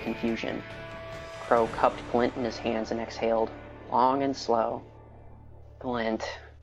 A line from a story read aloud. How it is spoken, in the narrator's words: he said calmly